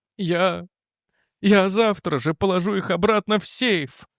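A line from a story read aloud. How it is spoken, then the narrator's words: Pleading. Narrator (Russian): взмолился Рент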